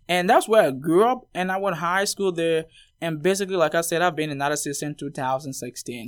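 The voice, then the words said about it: Non-American foreign accent. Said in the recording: “you're not from America. And also, you know, listeners can probably tell you have an accent.”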